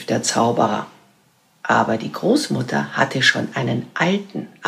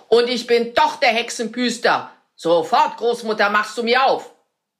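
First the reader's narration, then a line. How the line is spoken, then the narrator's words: Wizard screaming. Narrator (German): schrie der Zauberer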